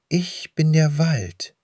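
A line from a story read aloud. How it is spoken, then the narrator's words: Gentle voice with rustling. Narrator (German): antwortete die Stimme sanft, das Flüstern der Blätter begleitete die Worte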